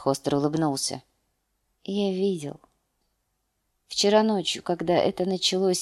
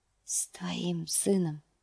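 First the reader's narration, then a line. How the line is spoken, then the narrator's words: Whisper. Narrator (Russian): шепнул он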